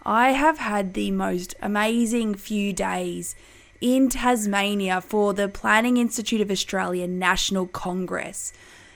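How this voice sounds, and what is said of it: Slightly hoarse voice. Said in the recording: “my voice is sounding a little hoarse.”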